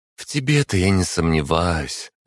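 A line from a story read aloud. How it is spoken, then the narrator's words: Reply with heavy sigh. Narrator (Russian): ответила Варвара и тяжело вздохнула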